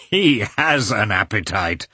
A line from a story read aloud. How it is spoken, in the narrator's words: said Oblonsky, laughing